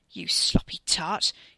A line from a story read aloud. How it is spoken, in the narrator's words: he snarled at his cousin